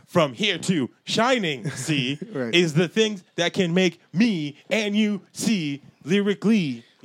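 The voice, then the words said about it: Aggressive slam poetry delivery. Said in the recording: “You gotta do the slam poetry in that like, in that ... aggressive voice ... you have to do it like that. Like, weird.”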